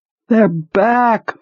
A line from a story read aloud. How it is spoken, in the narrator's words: the woman had screamed